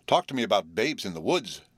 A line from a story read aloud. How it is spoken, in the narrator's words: gasped